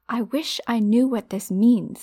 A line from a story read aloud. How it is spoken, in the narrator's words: he said angrily